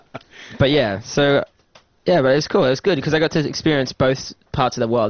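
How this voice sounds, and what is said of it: Australian accent. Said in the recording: “I have an Australian accent, I guess”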